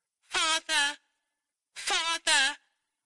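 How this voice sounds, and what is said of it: Tinny child's voice, archaic accent. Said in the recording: “a tinny child's voice in a strangely archaic accent”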